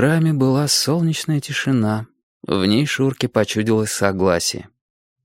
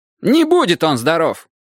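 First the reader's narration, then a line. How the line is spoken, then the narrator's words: Sharp objection. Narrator (Russian): резко возразил Кимыч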